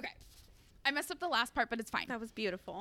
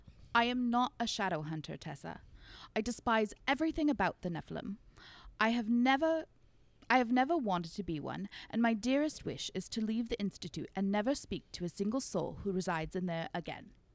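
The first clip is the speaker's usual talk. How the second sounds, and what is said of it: Put-on accent. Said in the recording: “this is where I'm going to try out my accent ... I don't know if I'm going to be able to do it”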